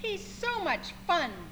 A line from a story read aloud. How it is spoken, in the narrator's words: they said